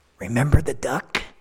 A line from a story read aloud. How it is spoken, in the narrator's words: he whispered to him